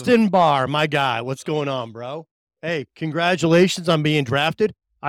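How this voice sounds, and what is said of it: Usual voice. Nothing is said of it.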